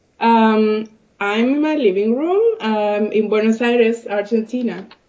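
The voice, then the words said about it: Voice affected by a cold. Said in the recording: “Sorry about my voice. I'm having a bit of a cold”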